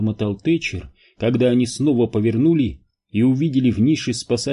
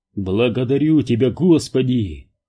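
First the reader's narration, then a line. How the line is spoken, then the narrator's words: Laughing. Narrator (Russian): рассмеялся Зеро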